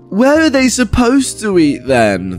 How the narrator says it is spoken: the entitled mum slurs back

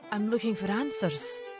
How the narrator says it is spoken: Mary said nervously

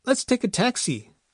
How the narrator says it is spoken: Farrell suggested as he rose shakily

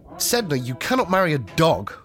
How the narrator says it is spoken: he exclaimed

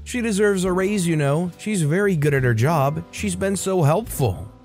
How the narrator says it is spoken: she called out to the employee

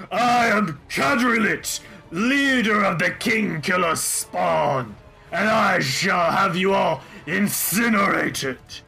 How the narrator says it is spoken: the red dragon roars out and says

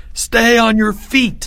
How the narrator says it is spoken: Leo cried over the roar

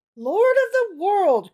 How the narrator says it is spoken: cried the rabbi, lifting his eyes to heaven

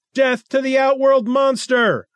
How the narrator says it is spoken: cried the crowd

